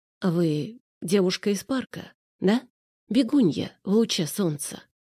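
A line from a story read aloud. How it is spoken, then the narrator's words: Uncertain, hesitant. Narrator (Russian): Арсений как-то неуверенно произнес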